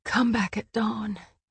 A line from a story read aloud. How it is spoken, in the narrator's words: She managed to whisper into the room